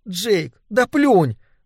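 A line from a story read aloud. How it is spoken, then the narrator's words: Pleading. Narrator (Russian): взмолилась Нэнси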